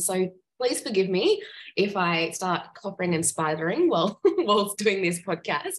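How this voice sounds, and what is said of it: Croaky voice. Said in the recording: “my voice is a little bit croaky today. My kids have passed on their germs”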